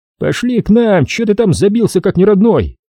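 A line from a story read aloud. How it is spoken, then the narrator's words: Shout. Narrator (Russian): крикнул ему Урал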